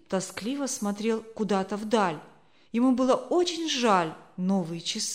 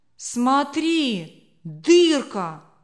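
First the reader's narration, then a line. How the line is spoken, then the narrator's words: Astonished shout. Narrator (Russian): округлив глаза, выкрикнул Лёня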